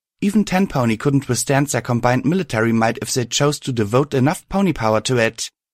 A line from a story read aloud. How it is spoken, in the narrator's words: I pleaded